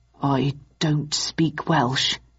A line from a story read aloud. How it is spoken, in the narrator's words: murmured Mycroft